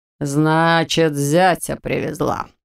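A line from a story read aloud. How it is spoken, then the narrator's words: Matter-of-fact father. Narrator (Russian): констатировал отец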